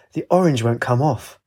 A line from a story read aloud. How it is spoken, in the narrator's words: He sighed